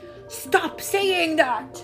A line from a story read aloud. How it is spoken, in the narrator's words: yelled Kabuto